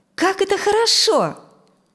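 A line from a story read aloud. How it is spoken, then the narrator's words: Joyful. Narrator (Russian): радостно сказала Дженнифер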